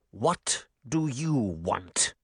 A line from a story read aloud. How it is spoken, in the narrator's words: he growled